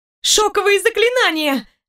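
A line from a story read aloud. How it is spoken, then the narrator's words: Shrieked. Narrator (Russian): взвизгнула я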